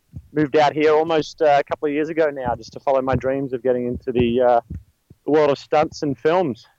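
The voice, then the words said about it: Australian accent. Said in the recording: “I'm sensing an accent ... I'm from Australia. I was born in Melbourne, Australia”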